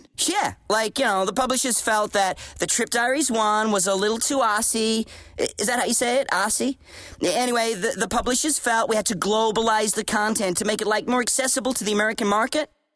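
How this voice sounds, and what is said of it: Fake American accent. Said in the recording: “a fake American accent”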